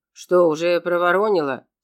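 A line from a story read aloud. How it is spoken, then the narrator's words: Angry question. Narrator (Russian): сердито поинтересовался Юрген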